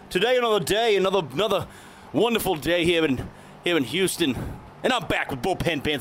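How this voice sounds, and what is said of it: Put-on international accent. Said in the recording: “some international flavor ... it is international accent”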